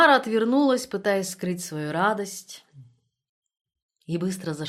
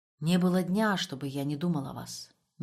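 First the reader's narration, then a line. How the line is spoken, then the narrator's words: Sudden embarrassed mumble. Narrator (Russian): неожиданно пробормотал Штребль и еще больше смутился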